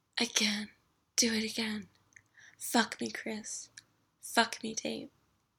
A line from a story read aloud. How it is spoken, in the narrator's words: Angela started to murmur